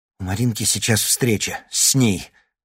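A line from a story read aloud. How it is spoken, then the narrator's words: Breathed out. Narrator (Russian): выдохнул он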